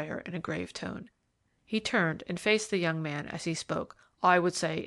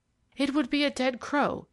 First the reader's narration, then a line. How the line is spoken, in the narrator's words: he interrupted excitedly